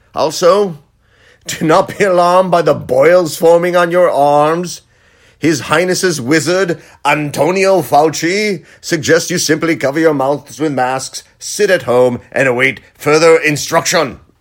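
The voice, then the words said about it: Town crier proclamation voice. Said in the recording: “my town crier impression”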